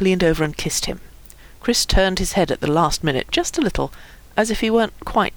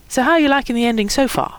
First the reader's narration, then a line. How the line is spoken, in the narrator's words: Chris said brightly